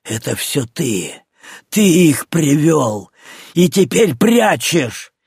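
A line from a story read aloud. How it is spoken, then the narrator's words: Hateful grating voice. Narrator (Russian): Алексей с ненавистью проскрипел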